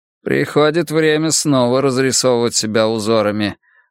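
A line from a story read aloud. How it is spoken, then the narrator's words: Gloomy. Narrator (Russian): мрачно сказал Бенкей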